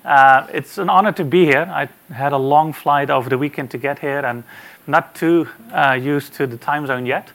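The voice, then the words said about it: Dutch accent. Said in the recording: “As you can hear by the accent, I'm not a Kiwi. The good news is I'm also not an Aussie. I'm actually from the Netherlands”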